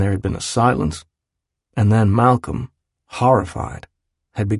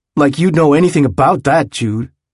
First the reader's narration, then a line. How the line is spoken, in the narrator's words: when Malcolm was very upset … he had snapped at him